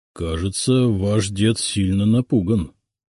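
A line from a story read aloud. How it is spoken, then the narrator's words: Quiet. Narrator (Russian): тихо сказал он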